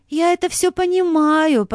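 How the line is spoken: Uncertain. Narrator (Russian): неуверенно сказала Анна Сергеевна

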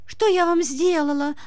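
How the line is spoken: Whimpering. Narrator (Russian): захныкала Юлька

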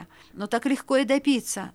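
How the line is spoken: Timid. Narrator (Russian): робко заметил Феофан

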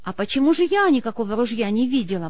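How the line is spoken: Astonished exclamation. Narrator (Russian): воскликнула изумленная Ксения, считавшая, что у нее в доме все под контролем

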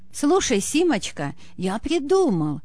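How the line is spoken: Delighted exclamation. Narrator (Russian): Загораясь восторгом благотворительности, воскликнул Чугуев

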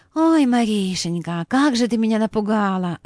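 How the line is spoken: Breathless exhale. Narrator (Russian): выдохнула Анна Сергеевна

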